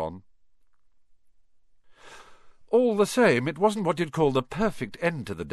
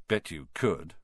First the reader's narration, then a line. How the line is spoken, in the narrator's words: Ron muttered